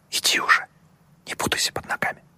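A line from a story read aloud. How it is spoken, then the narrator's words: Amused whisper. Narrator (Russian): девушка только усмехнулась, шепнула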